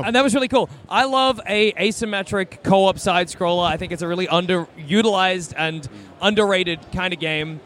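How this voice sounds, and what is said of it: Tired, worn-out voice. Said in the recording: “it's been a long day. You can probably hear it in my voice.”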